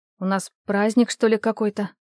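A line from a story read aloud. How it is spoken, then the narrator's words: Muttering. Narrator (Russian): пробормотала я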